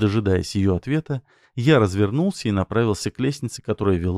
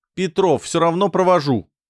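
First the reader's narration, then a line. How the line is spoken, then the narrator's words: Shouted after someone. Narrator (Russian): крикнул Деева мне вслед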